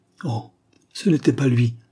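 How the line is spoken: Woman exclaiming, turning away. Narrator (French): s'écria la marquise en se détournant

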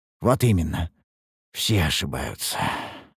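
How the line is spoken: Sighing. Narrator (Russian): вздохнул я

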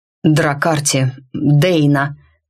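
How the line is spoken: Hoarse dark voice. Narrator (Russian): Голос мрака прозвучал отчего-то хрипло

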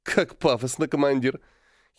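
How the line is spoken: Giggling while chewing gum. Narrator (Russian): хихикнула Диана, перекатывая жвачку из одного угла рта в другой

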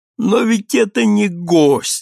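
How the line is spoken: Pleading. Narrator (Russian): сказал умоляющим голосом мой друг

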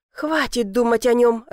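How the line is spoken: Irritated muttering. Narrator (Russian): раздраженно пробормотала

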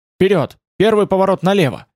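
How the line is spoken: Shout. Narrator (Russian): Ингрид крикнула

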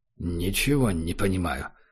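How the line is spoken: Muttered. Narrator (Russian): пробормотал Убер

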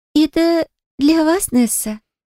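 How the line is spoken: Timid girl's voice. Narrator (Russian): произнесла робко девушка

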